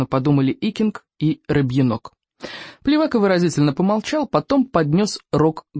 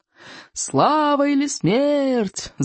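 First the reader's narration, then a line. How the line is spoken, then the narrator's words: Boys yelling together. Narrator (Russian): завопили в ответ 8 мальчишек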